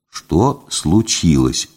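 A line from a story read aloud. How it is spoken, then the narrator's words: Very quiet question. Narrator (Russian): очень тихо спросил я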